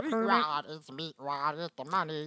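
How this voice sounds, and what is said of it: Cartoon character voice impression. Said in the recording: “That's a good Meatwad impression”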